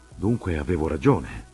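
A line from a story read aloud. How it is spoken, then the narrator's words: Triumphant tone. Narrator (Italian): ho fatto io in tono di trionfo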